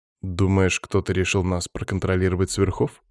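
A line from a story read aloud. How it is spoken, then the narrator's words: Plain question. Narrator (Russian): спросил я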